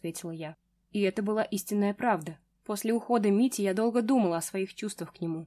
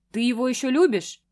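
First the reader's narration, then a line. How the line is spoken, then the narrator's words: Displeased growl. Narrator (Russian): прорычал недовольный мужчина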